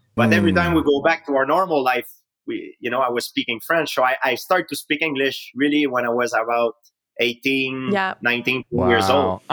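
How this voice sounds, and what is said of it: Québécois French accent in English. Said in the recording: “you have such a sexy accent ... don't ever lose it ... Fellow Québécois”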